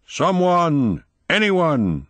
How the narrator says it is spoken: he shouted

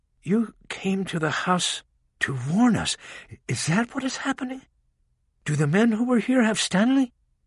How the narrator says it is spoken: Rachel leaned in close and spoke in a calming voice

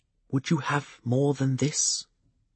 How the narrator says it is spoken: The Fool's voice was less than a whisper

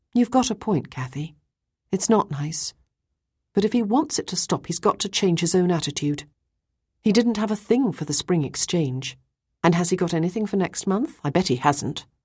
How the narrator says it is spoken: I heard a sigh from Ruth's side of the room, and she said

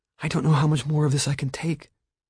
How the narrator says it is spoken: she whispered tearfully

